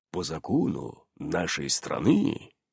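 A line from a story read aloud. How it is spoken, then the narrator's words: Quiet werewolf reply. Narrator (Russian): тихо ответил оборотень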